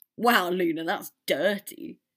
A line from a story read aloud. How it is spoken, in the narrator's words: Dean laughed